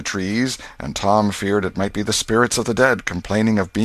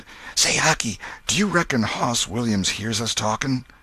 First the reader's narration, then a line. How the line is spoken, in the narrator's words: Tom whispered